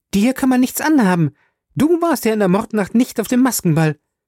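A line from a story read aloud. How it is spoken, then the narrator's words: Called out. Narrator (German): rief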